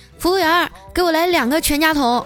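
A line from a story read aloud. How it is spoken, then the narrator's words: Loud voice. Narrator (Chinese): 丸子大声地说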